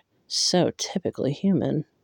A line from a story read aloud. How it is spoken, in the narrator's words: Lucien muttered